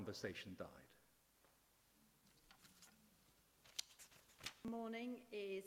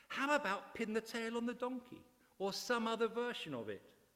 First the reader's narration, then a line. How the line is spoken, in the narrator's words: Running short of ideas, piped up